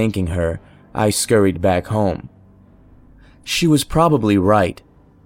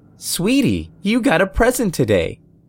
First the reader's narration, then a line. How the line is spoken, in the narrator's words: exclaimed